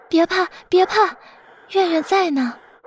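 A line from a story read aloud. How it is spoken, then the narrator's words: Soft, comforting. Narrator (Chinese): 轻声安慰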